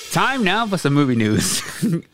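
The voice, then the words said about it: Mock newscaster voice. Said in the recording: “Like my newscaster voice?”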